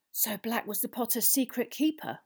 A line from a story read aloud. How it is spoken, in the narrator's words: whispered Madame Rosmerta